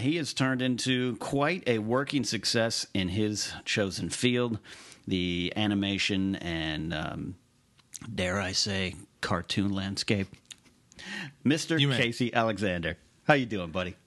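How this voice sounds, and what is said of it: Radio DJ announcer voice. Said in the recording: “DJ voice ... it's nice to hear it again”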